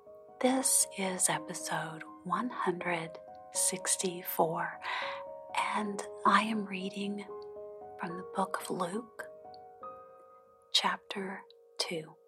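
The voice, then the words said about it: Soft, gentle speaking voice. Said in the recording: “in a soft voice”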